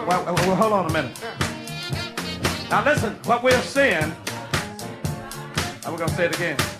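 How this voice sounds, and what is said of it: Mississippi Southern accent. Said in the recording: “they can understand what I'm saying because of this Mississippi accent I got”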